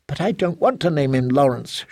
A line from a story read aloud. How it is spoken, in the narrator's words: whined